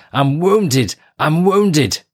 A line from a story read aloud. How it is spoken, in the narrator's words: a commando who shouted